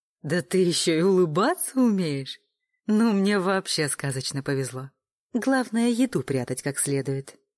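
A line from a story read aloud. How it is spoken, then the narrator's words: Laughing. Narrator (Russian): рассмеялась Аня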